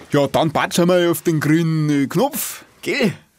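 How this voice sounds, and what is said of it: Bavarian dialect. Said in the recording (German): “Das war bayerisch”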